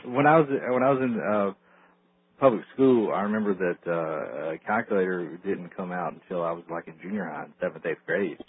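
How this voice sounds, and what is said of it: Southern American accent. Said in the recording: “Is it my southern accent? Do I have a southern accent, Bill? ... When I say jewelry, is there a southern accent in it?”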